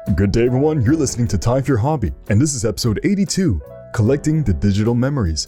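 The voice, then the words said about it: Slightly deeper, smooth voice. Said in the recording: “My voice is a little deeper because I'm recording in the morning ... today I'll sound silky smooth”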